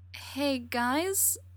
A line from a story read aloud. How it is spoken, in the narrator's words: Brendan says hesitantly, the way he does when he's nervous